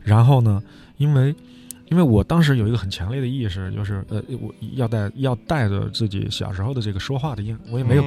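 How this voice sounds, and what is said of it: Changsha-accented Mandarin. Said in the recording (Chinese): “带着这种口音呢 ... 他像个外国人 ... 长沙话是塑料普通话的”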